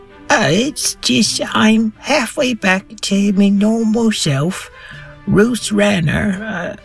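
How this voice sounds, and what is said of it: Character voice, slightly higher pitch. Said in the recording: “my voice is a little higher”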